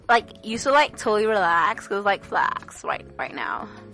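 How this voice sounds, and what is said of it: Exaggerated American valley-girl accent. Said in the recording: “That's, like, how you do an, like, American accent.”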